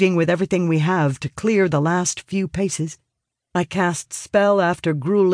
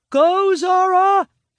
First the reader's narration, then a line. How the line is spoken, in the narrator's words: yells